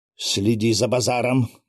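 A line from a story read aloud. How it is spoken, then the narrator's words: Growled. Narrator (Russian): прорычал князь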